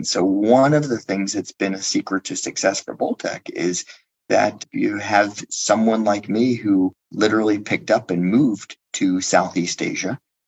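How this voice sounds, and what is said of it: American Pennsylvania accent. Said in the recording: “clearly from this accent from the US. I'm from the wonderful state of Pennsylvania.”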